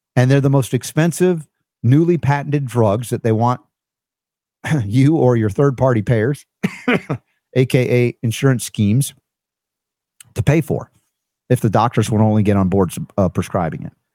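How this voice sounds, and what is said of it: Strained voice, slightly on edge. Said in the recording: “my voice is still a little on the edge ... Still struggling, huh? ... I get this little tickle ... I'm pushing myself”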